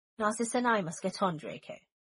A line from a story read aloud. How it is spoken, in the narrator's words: Snape said firmly